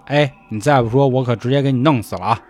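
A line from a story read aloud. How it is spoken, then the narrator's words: Plain. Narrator (Chinese): 太监说了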